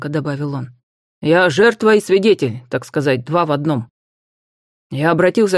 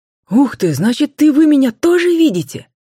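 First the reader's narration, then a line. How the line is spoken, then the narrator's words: Joyful surprised exclamation with whistle. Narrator (Russian): Радостно воскликнул Макар, слегка присвистнув от удивления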